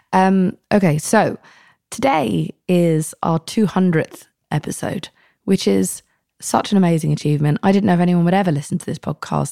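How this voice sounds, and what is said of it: Husky, ill-sounding voice. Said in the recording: “My voice is still sexy. ... whatever the fuck this cough is”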